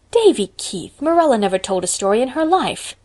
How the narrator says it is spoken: said Anne indignantly

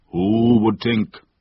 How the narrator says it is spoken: declared Mother Sally in a booming voice

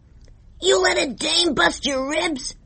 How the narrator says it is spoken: Earl yelled

